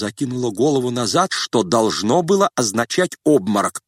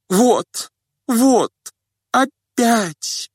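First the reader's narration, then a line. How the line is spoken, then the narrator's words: Faint babbling lady. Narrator (Russian): пролепетала барыня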